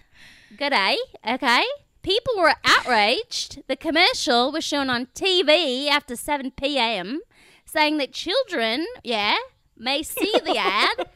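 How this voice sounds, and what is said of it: Put-on Australian accent. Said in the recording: “we're going to all read the complaints in Australian accents.”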